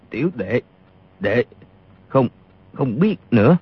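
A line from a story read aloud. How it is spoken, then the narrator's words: Trembling voice. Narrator (Vietnamese): Y run rẩy nói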